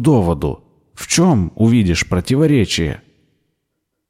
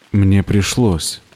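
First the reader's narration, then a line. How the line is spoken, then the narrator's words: Dejected voice. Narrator (Russian): упавшим голосом сказал Ричард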